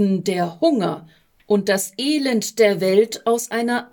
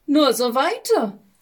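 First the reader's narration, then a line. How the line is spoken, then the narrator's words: Cheerful call. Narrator (German): rief die Konkurrenz fröhlich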